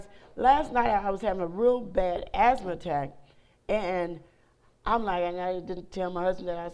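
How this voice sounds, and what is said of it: Raspy voice. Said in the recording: “my voice is a little even more raspy than normal right now”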